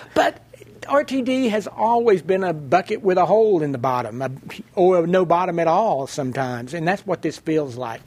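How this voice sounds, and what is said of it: Persistent non-Colorado regional accent. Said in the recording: “you'd think I'd lose this accent at some point, but it's not going to happen”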